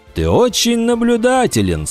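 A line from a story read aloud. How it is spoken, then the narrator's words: Admiring exclamation. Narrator (Russian): с восхищением воскликнул Риктус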